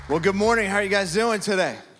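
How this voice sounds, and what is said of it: Slightly raspy voice. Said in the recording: “My voice is a little raspy... my wife said it was sexy”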